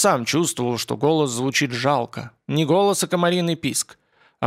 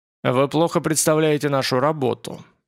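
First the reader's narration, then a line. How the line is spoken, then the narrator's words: Grim. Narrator (Russian): ответил Морозов мрачно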